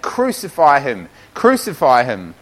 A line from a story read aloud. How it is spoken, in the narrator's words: the chief priests and the officers cried out, saying